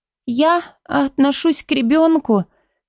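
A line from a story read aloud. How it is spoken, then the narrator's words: Embarrassed babbling. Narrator (Russian): пролепетала Мадара, густо заливаясь краской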